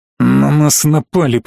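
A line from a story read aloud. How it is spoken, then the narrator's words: Growled. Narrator (Russian): прорычал колдун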